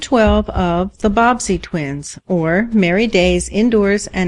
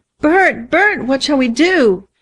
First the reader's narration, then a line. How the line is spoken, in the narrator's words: she gasped